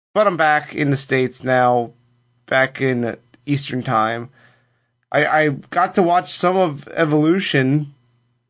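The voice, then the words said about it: Congested voice from a cold. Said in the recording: “If you can't tell by my spoopy voice, I have a bit of a cold”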